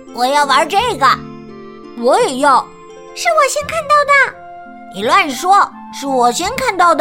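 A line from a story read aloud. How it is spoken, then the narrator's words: Pouting children yelling. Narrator (Chinese): 弯着嘴巴的小人儿一进门就大叫道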